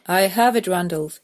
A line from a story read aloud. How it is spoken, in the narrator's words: he fairly shouted at me